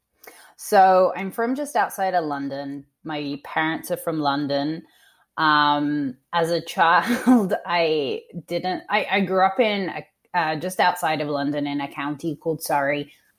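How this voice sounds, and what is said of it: Mixed Australian and northern English accent. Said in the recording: “you have you have a unique accent, and I feel like I can detect more than one thing in it. So I definitely hear the Australian accent ... I also hear like a sort of UK, almost like North Country accent”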